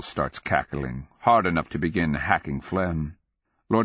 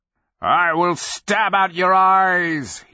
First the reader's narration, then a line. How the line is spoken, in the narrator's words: he bellows